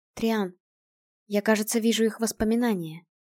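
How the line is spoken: Quiet speech. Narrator (Russian): тихо сказала она

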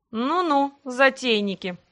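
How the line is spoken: Smirking snort. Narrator (Russian): хмыкнул некромант

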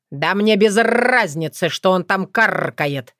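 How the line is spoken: Harsh bark. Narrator (Russian): рявкнул Крат

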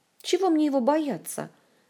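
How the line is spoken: Indignant denial. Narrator (Russian): Возмущенно опровергла Ольга

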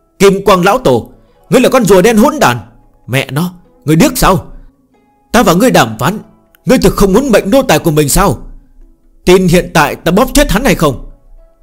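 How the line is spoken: Sudden loud yell. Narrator (Vietnamese): Phương Hành đột nhiên lên tiếng hét lớn

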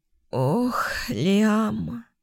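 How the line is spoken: Hoarse whisper. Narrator (Russian): осипшим голосом прошептала

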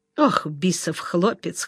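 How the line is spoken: Chuckling. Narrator (Russian): хохотнул Пасюк

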